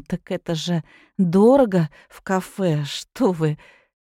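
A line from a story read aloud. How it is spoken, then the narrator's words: Quiet and uncertain. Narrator (Russian): Ирина произнесла тихо и неуверенно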